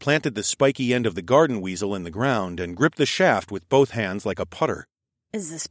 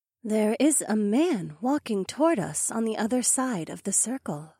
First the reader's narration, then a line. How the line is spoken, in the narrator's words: Acrasis murmured into my ear